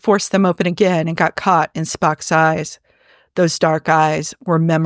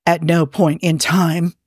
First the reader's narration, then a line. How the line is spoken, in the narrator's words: said Spock hoarsely